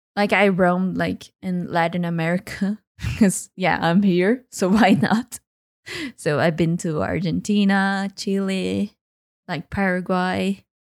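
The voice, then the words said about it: Non-native English accent. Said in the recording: “I have a lot of accent ... A bit.”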